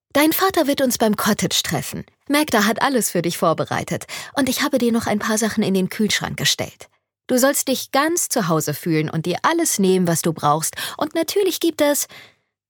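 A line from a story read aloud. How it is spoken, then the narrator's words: Mother, cheerful. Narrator (German): begann ihre Mom fröhlich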